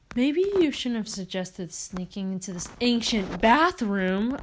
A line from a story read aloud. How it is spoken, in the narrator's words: I exclaimed angrily